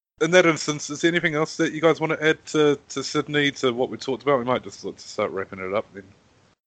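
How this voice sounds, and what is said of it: Strained, failing voice. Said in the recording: “my voice is really going, so I've just been coughing a whole lot”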